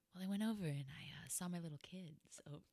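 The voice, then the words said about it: Smooth, low, sultry voice. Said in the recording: “You cannot talk in your quiet storm voice anymore.”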